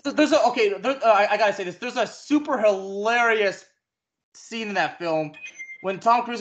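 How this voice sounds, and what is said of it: Usual voice. Nothing is said of it.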